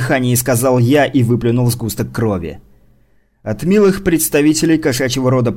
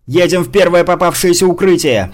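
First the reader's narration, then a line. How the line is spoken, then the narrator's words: Shouted. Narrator (Russian): прокричал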